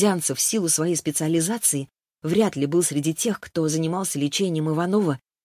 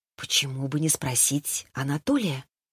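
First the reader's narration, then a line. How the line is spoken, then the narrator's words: Whispered to herself. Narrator (Russian): я прошептала самой себе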